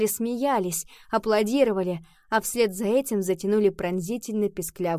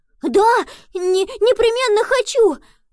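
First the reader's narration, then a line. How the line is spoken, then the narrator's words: Exclamation. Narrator (Russian): воскликнул Пабло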